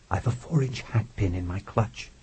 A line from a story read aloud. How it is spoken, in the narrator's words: she whispered